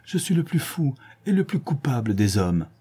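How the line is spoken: Exclaimed. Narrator (French): s'écria-t-il

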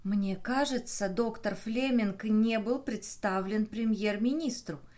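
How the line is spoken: Whisper. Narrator (Russian): шепнула она

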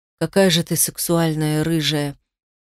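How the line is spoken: Slightly husky voice. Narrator (Russian): сказал он чуть хрипловатым голосом

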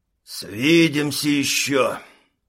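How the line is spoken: Hissing. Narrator (Russian): прошипел рейдер

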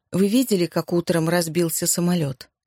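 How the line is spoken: Plain. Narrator (Russian): спросила она

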